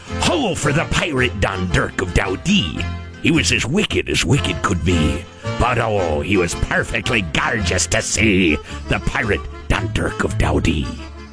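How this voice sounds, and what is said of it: Put-on pirate accent. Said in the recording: “So what's that accent? ... That's the pirate accent”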